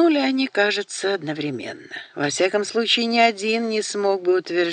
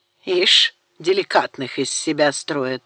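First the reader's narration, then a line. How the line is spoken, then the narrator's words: Grumble. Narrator (Russian): проворчал Даниэль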